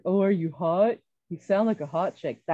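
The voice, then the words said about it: Punk rock guy character voice. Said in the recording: “That is just my impression of how this person sounded in my head... a like a punk rock guy”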